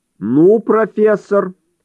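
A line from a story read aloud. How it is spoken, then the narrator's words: Growl. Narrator (Russian): прорычал Эдвардс, обращаясь к Понтье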